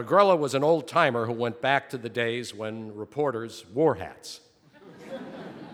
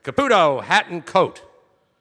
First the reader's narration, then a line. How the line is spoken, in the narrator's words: Don Agrella, the Night City editor, yell